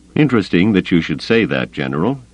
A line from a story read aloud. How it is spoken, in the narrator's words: Grayson said dryly